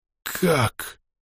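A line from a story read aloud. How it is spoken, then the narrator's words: Wheezing. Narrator (Russian): просипел я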